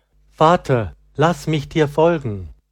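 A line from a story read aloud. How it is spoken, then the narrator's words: Called out. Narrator (German): Laurentius rief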